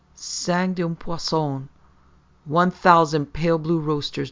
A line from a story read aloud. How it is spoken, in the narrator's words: the Grand Dan exclaimed, between gasps of incredulity